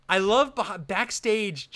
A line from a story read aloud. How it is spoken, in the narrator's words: Jay yells